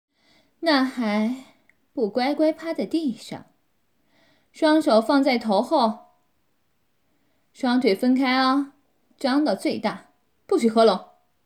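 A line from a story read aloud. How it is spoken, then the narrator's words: Smug laughing. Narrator (Chinese): 他妈妈得意地笑着说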